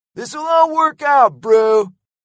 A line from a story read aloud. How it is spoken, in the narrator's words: yelled Lego